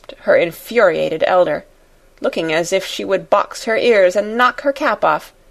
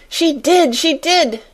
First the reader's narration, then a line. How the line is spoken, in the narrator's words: she cried